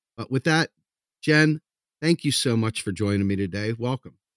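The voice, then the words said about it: Smooth radio-style voice. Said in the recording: “you have a really good audio voice. You have a really good radio voice”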